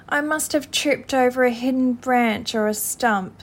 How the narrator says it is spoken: said the mole miserably

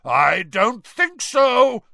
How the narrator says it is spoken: roared Moody

